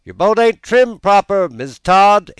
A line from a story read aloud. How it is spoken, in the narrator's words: exclaimed a voice from shore